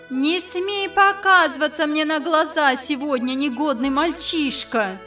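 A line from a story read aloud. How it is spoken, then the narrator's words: Exasperated mother shouting. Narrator (Russian): Бедная мать, совсем потеряв терпение, закричала вдогонку сыну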